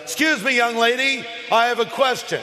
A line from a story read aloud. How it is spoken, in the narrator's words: he interrupts and says very loudly